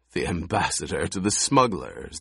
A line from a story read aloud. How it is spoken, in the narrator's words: the Baron chuckled